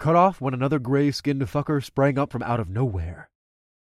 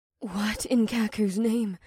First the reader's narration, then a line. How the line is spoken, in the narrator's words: Awara gasped